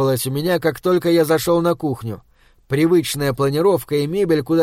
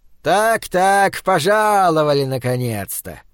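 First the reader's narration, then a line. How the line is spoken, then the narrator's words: Burring speech. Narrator (Russian): картаво выговорил он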